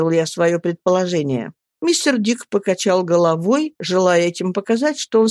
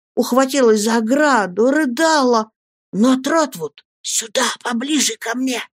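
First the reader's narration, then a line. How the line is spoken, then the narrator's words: Whisper. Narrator (Russian): зашептал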